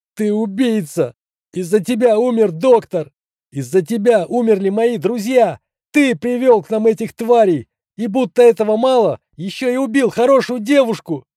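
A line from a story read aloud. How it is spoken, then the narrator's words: Tearful shouting. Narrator (Russian): Сквозь слезы и сопли выкрикнул медбрат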